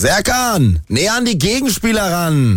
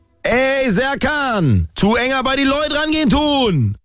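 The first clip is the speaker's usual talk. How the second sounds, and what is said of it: Put-on Hessian dialect. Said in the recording (German): “So sage ich es richtig auf Hessisch. ... das echte, das richtige Hessisch”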